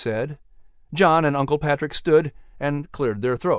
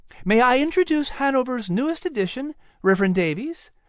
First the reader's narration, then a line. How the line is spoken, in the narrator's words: Sarah said happily